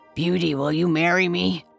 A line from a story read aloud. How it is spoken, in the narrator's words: the beast asked her in his terrible voice